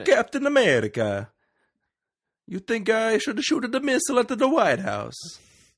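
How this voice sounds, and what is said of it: Attempted Italian accent, not quite right. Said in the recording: “in his Italian accent, which I can't do ... I can't do it ... it's not quite like that. It's not. It's not Mario ... not the pizza pie accent ... it's very Italian”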